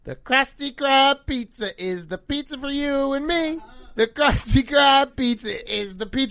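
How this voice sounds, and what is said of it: Terrible SpongeBob impression, singing. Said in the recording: “people are saying I have a terrible SpongeBob impression.”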